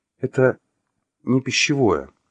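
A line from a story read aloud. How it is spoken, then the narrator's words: Timid interjection. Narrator (Russian): робко вставила она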